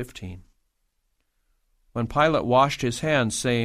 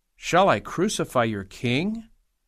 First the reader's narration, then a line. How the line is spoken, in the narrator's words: Pilate asked